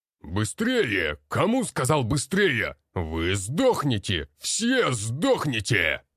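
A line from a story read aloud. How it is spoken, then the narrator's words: Instructor's shout. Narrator (Russian): Кричал Марков Роман Егорович, наш инструктор по боевой подготовке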